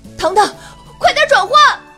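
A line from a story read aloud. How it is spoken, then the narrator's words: Shouting. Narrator (Chinese): 乌拉拉冲糖糖大喊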